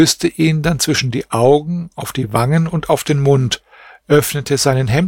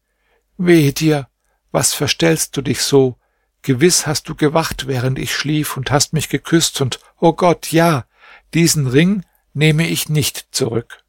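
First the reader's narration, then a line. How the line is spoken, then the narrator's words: Deep sigh, then speaking. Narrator (German): seufzte sie tief auf und sagte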